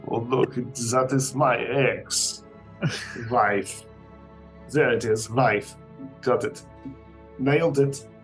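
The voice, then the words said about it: Unconvincing put-on German accent. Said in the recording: “doing a Borat impression, and it's not working ... I've never used the phrase "wife" in German”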